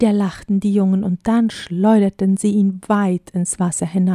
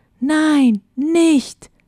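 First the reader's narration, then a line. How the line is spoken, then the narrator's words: Shouted. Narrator (German): schrie Luke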